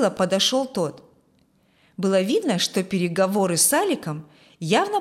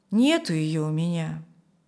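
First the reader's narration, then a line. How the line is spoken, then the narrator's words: Regretful sigh. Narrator (Russian): с сожалением вздохнул Юрген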